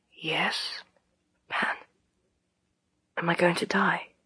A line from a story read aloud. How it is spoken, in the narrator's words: Pantalaimon whispered